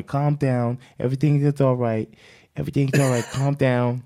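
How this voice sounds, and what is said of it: Good Mike Tyson impression. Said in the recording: “That's a pretty good Mike Tyson impression.”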